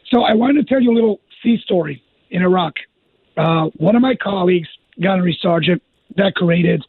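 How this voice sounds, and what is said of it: Hoarse voice. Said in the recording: “I apologize for my hoarse voice, but in the line of work.”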